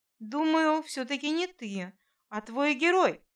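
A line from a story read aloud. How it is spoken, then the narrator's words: Gentle objection. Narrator (Russian): мягко возразил Борис Владимирович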